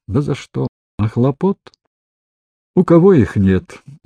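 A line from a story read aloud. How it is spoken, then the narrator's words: Sighing, vague agreement. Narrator (Russian): Молгожата с каким-то сомнением вздохнула и неопределенно согласилась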